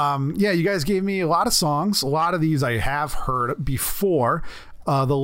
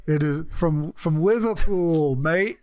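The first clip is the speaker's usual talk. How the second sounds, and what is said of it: Put-on Liverpool accent. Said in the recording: “Great accent.”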